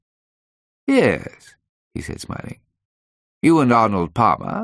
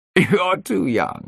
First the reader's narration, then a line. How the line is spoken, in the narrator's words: he said, laughing